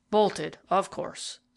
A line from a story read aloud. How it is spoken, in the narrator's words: said Dufrayer in a gloomy voice